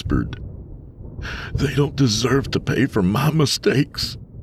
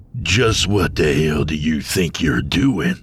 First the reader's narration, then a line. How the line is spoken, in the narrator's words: Ionios growled